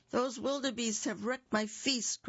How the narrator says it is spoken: cried Rhino

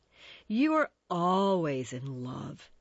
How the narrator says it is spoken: he cried

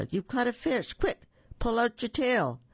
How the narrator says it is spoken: The fox called out

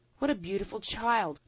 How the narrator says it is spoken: cried a magpie

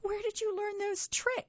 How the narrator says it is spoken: sputtered the speckled hen, holding her sides

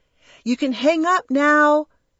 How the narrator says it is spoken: you called out to your dad

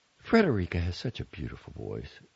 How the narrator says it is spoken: Yelena said with a sigh

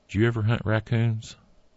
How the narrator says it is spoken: Carter asked

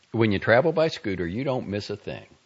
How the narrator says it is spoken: Alvin said

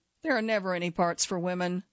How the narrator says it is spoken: said

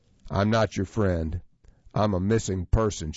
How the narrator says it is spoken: she said

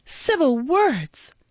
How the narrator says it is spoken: cried the girl, whose passion was frightful to see

